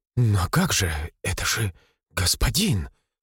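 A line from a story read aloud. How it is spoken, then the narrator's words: Mumbling. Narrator (Russian): бормотала Мария, краснея и бледнее одновременно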